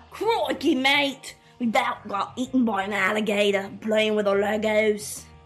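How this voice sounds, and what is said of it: Put-on, wavering Australian-style accent. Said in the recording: “I don't know what accent I'm doing anymore ... Probably not Australian ... sound like an angry Irishman ... more like a New Zealander, British type”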